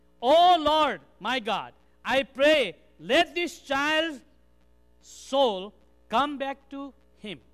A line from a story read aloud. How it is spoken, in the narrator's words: he cried to the Lord, said